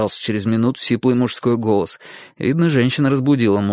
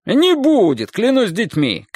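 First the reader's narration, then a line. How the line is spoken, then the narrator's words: Man shouting. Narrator (Russian): крикнул мужчина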